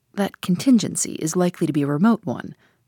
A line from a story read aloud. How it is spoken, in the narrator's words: said dryly